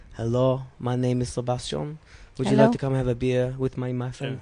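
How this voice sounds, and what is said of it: Bad put-on foreign accent. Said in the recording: “a bad accent.”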